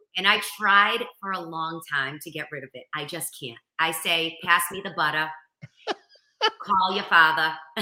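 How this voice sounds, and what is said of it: Boston accent. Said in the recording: “I have the real Boston accent.”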